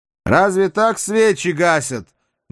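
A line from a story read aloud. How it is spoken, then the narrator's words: Loud and cheerful. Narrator (Russian): громко и весело говорит дядя Арсен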